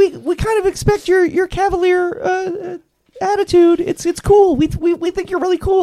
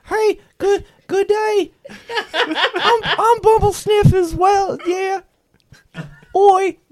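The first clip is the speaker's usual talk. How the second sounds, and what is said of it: Attempted Cockney accent. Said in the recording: “I'm trying a Cockney accent too”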